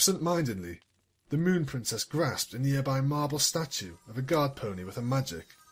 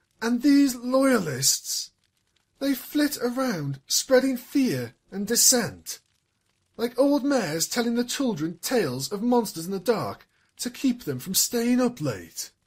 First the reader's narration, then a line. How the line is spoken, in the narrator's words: her voice grew in strength and resolve, and it was with barely suppressed frustration that she cried